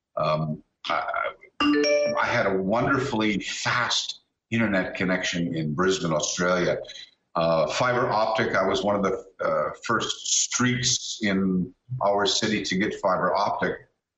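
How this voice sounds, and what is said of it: Canadian accent. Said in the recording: “my accent is Canadian”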